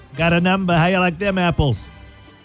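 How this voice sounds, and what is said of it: Put-on Boston accent. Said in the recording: “Going with my Boston accent today.”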